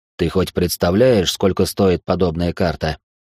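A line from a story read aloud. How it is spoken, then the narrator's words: Snorting reply. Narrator (Russian): Виктор хмыкнул в ответ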